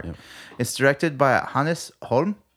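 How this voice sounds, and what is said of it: Condescending mock Swedish accent. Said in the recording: “condescending Swedish accent”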